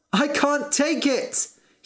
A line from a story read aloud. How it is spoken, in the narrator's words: cried